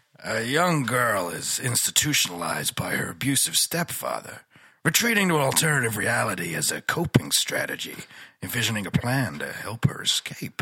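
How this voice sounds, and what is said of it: Gravelly old man voice. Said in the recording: “Try Scott Glenn. ... Just Scott Glenn. ... I always seem to get gravelly old man.”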